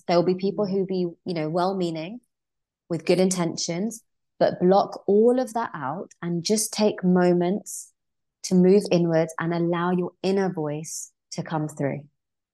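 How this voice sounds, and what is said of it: Peaceful, calm voice. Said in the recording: “Your voice is so peaceful.”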